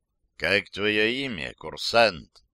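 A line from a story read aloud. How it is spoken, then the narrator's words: Quiet. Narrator (Russian): негромко спросил он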